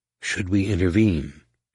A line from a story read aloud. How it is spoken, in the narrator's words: asked in a low voice